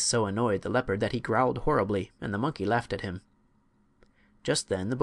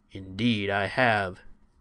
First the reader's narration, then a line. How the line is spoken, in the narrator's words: said the bear in a low, deep, growling voice